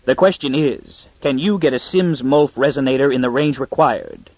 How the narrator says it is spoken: Darrell replied coldly

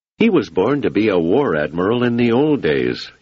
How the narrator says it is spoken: he said

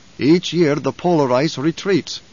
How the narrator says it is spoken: Stilgar said

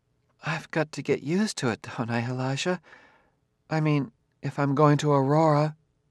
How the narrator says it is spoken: she smiled weakly

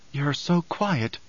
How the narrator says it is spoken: Chani whispered

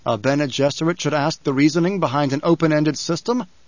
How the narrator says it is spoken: Paul asked

